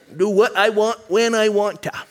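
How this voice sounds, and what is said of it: Put-on Maine accent. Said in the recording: “I just got a wow from my Mainer accent. ... I've been working on it for years.”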